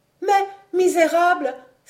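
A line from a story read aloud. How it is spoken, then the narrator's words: Exclaiming. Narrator (French): s'écria mademoiselle de Vaunois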